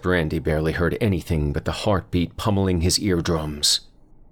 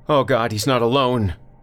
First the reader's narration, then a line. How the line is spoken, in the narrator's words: Julia looked back and shouted something like